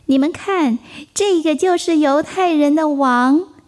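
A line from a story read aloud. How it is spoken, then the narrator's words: Mocking. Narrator (Chinese): 那些罗马士兵嘲笑他说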